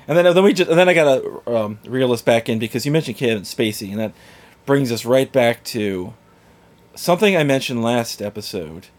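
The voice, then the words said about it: Stuffy, congested voice from a cold. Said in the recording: “I just had a little tickle, a little sore throat ... I'm just, like, a little stuffy ... my voice is normally annoying, but might be even more annoying”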